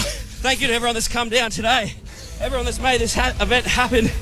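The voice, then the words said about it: Out of breath, panting speech. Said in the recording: “I'm exhausted. I'm cramping. ... I'm so out of breath”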